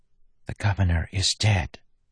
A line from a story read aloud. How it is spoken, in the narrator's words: Marcy whispered